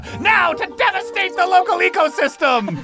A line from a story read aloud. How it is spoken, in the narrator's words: you hear it shout